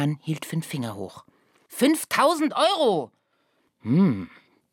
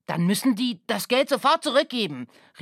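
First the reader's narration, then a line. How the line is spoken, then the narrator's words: Man calling out. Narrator (German): rief der Mann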